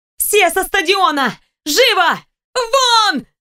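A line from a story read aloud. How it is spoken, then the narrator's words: Shout. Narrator (Russian): закричала я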